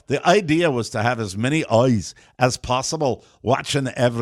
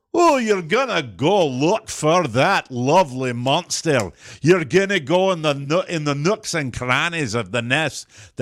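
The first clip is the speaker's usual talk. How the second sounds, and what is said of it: Put-on Scottish accent. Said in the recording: “my Scottish accent now is Mel Gibson's from Braveheart ... Yours requires a lot of moisture.”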